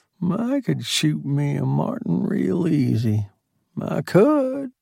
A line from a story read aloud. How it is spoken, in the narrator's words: Lem said under his breath